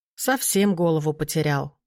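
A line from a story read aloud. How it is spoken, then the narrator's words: Grumbling. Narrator (Russian): проворчал Вран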